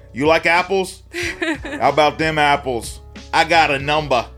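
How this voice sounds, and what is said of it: Put-on Boston accent. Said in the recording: “I don't know if that's a good Boston accent. ... Oh, that was great.”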